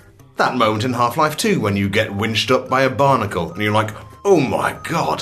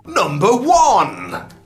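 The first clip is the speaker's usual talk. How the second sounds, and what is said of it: Excited announcing voice. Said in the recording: “say in an excited voice”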